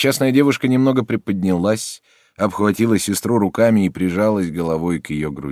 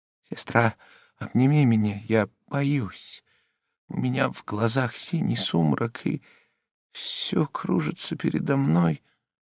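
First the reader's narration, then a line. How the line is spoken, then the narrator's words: Trembling timid voice. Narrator (Russian): вздрогнула и дрожащим робким голосом сказала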